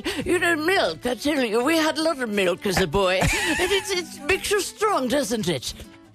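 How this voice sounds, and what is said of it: Put-on British accent, old man. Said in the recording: “this is an old English fellow ... That time you sounded like a British guy”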